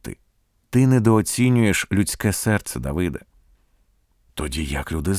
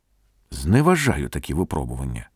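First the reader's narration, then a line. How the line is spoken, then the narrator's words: Weary reply. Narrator (Ukrainian): втомлено відповів Давид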